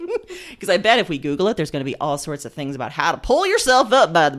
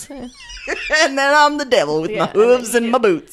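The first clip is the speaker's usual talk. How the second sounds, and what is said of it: Deliberately bad fake Southern accent. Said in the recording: “I hope the Southern contingent of listeners just skips this episode ... With this terrible accent that we both do.”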